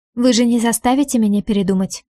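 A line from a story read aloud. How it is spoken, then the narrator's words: Calm suggestion. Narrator (Russian): спокойно предлагаю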